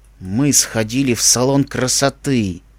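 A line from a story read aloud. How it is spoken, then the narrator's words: Through gritted teeth. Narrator (Russian): цедя сквозь зубы каждое слово, ответил Череп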